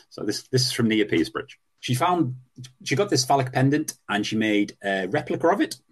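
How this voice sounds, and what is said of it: County Durham English accent. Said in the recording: “this is a County Durham accent”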